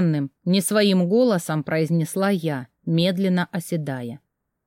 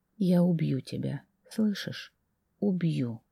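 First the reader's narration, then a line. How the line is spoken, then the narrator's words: Whispered. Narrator (Russian): шептала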